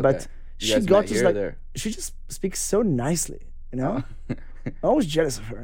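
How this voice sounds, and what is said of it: English with an Israeli accent. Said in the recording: “I'm still stuck with the accent.”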